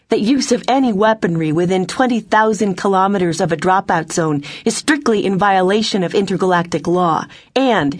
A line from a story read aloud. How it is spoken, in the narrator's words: she shouted